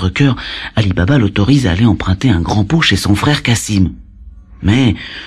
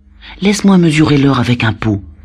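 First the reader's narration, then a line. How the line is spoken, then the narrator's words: Pleading. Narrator (French): le supplie-t-elle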